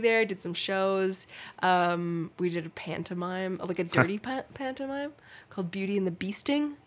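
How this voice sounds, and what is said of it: North American accent. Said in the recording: “you're keeping your accent ... does me sounding North American”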